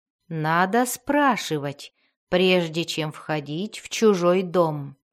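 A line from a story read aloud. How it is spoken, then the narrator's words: Calm with menacing undertone. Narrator (Russian): спокойно сказал Джарлокс с явной ноткой угрозы в голосе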